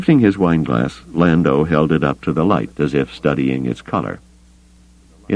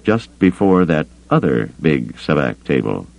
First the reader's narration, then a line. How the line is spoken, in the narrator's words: he added dryly